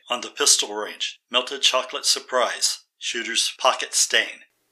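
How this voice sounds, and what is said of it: Staccato, monotonous, sleep-inducing speech. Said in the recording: “the sound of my voice has put the audience to sleep ... my vocal pattern ... it also knocks her out as well ... the staccato pattern of my speech ... I sound like William Shatner without all of the flash”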